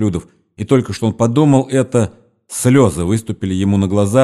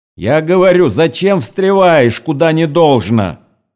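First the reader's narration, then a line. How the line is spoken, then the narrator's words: Shouting from one side. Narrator (Russian): кричали с одной стороны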